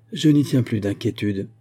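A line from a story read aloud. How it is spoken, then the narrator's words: Finally exclaimed. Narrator (French): s'écria enfin Dunbar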